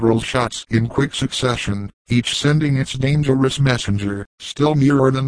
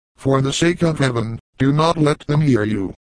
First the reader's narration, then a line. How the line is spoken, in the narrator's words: cried Ellen